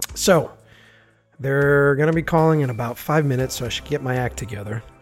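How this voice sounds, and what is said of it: Raspy voice. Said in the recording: “enjoy my raspy voice”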